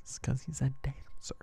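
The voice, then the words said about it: Whispering. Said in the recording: “Why are you whispering?”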